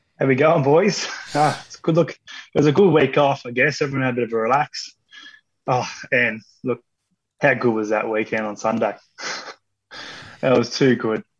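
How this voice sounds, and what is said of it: Sore, strained voice. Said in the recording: “My voice is sore. I was sitting at home by myself and my voice is sore.”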